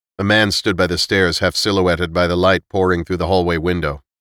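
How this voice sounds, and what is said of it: Usual voice. Nothing is said of it.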